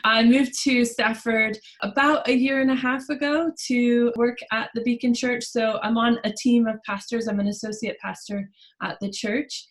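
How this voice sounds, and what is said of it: American accent. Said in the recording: “obviously by the accent, we will address that I'm an American.”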